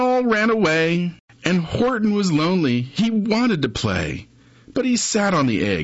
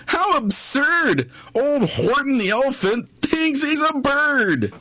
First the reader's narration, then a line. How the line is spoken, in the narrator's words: They laughed, and they laughed